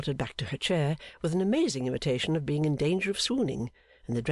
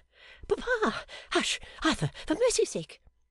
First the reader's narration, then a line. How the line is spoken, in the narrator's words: she cried with infinite relish